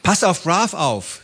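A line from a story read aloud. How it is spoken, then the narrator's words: Called out. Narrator (German): rief sie Baba zu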